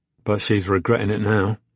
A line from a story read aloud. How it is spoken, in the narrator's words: Robbie sighed